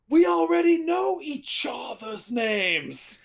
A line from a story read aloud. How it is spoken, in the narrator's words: And I just shout really loudly